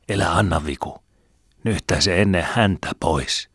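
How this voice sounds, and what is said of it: Whispering. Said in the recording (Finnish): “Kepu koki äitiä silmällä pitäen kuiskuttaa”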